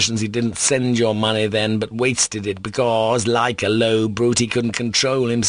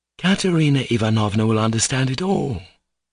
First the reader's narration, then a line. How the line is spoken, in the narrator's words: Alyosha said solemnly